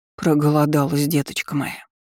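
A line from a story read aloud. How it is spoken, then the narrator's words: Pitying voice, cook. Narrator (Russian): жалостливым голосом произнесла повариха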